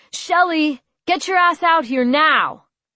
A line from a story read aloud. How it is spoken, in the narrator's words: Lee shouting